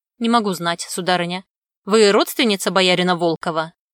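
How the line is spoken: Stern question. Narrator (Russian): строго спросил Ершов

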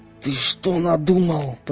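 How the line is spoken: Hissing. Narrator (Russian): прошипел сталкер

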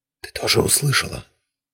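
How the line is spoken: Whispering. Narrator (Russian): прошептал Дзирт, тесно прижавшись к боку пантеры

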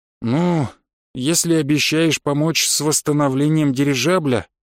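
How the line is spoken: Sigh. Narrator (Russian): Рубари вздохнул

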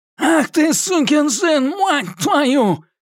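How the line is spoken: Shouted, bloodied nose. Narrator (Russian): крикнул Эдди, вытирая кровь из разбитого носа

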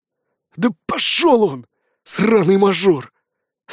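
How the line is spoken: Hissing with hatred. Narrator (Russian): с явной ненавистью в голосе прошипел Гуков

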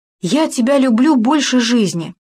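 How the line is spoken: Heated exclamation. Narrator (Russian): заяц в горячах воскликнул

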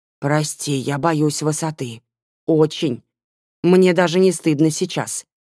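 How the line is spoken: Strained, muffled behind hand. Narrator (Russian): еле выдавил, прикрывая рот ладонью

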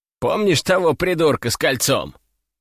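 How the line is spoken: Dry chuckle. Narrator (Russian): хмыкнул Иван

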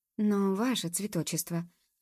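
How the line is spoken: Timid, very quiet. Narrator (Russian): робко произнесла Джуб, тихо-тихо

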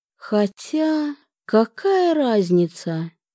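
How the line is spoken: Forced, firm and dry. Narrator (Russian): выдавила, насколько получилось, твердо и сухо

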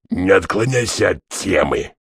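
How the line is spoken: Barked. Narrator (Russian): рявкнул

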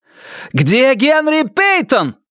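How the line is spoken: Yelling. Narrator (Russian): заорал Риджвик патрульному Прайсу

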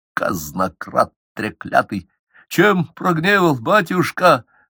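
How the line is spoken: Forced, strained. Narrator (Russian): выдавил из себя Акинф

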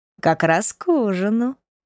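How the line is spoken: Purring. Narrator (Russian): промурлыкал

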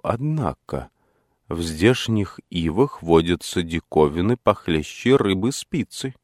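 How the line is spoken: Embarrassed mutter. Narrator (Russian): пробормотал я сконфуженно

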